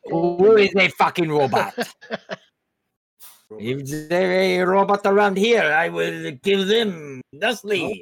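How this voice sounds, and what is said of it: Put-on French accent. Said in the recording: “your French accent's improved. Must be all the practice.”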